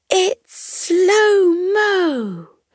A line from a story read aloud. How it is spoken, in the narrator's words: The mascot cried out with glee